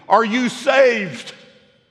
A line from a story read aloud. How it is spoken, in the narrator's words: Harper called out to him